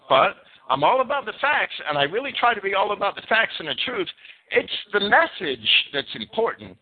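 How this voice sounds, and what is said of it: Northeast American accent. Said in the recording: “I got that Northeast accent that a lot of people were turned off by. It's in your face.”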